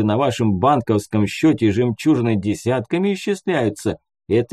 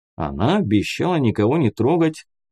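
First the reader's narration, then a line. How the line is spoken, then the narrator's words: Calm reply. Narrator (Russian): спокойно ответил Муха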